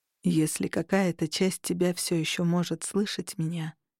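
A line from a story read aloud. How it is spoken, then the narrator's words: Soft. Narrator (Russian): мягко проговорил Кости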